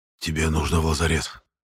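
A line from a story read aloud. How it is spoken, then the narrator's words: Hissing in ear, doubtful. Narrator (Russian): прошипел мне на ухо Эрик, правда, без большой надежды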